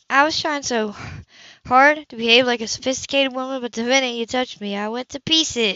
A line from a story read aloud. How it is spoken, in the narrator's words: she sighed heavily